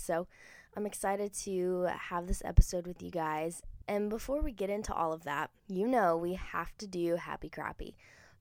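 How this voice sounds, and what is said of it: Congested, allergy-affected voice. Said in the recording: “my allergies are off the chain insane, y'all. I'm sure you can probably hear it in my voice.”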